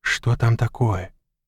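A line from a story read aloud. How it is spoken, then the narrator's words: Whispered question. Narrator (Russian): шепотом спросил Мак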